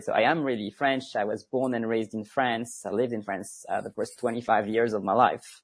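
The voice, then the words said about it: Mild French accent. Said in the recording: “I've been told that my accent is not very strong, but most people can still hear it”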